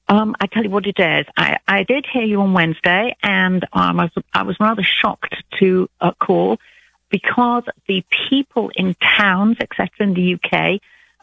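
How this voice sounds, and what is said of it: British accent. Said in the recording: “you don't sound like you're from Alabama ... I'm British ... a British accent ... I love her accent”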